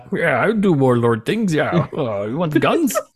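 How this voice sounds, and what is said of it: Weird put-on accent. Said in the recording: “it's like doing a weird accent”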